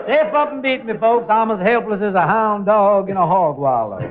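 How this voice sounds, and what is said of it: Southern American accent. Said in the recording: “Hasn't he got a real Southern accent?”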